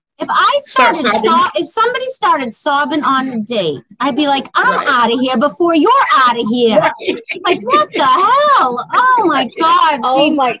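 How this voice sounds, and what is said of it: Strong Boston accent. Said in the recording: “I love how that Boston accent comes out when you start getting ... My Boston accent. ... That comes right out.”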